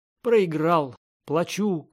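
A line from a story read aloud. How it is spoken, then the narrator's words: Laughing shout. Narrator (Russian): крикнул Спангет, смеясь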